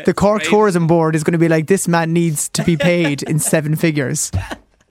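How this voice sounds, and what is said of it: Cork accent. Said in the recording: “I assumed she knew by my accent where I was from.”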